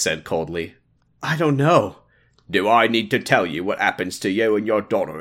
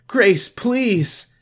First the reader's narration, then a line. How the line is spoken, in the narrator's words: Emily pleaded